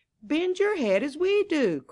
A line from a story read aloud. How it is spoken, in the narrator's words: cried the ears of corn